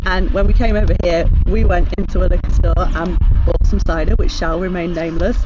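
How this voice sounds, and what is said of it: British accent. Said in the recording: “I don't know if you can tell from my accent that's where we're from. We came over from the UK”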